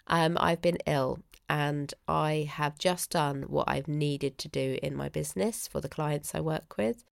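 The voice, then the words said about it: Congested, stuffy voice. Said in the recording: “my rather congested tone of voice ... still sounding congested”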